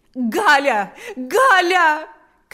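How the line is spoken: Shouting. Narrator (Russian): кричала Марфа

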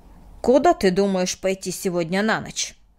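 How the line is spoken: Sharp question. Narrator (Russian): резко спросил Мартин

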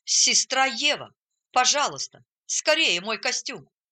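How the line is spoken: Exclaiming. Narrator (Russian): Он воскликнул

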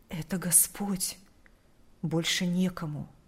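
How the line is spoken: Whisper. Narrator (Russian): Прошептал он в ответ

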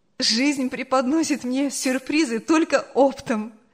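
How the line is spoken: Laughing. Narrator (Russian): смеялась

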